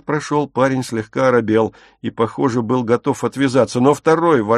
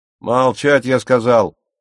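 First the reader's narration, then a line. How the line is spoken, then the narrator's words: Barked command. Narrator (Russian): гаркнул первый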